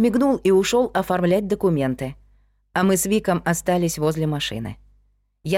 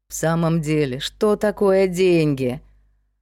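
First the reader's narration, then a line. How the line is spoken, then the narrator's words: Sighing. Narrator (Russian): Он поморщился и вздохнул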